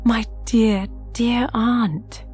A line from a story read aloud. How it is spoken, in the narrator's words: she rapturously cried